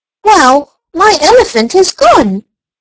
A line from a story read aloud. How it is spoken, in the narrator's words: exclaimed Archie